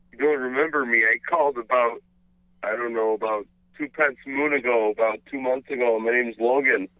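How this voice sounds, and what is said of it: Canadian accent. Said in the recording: “this is a Canadian accent.”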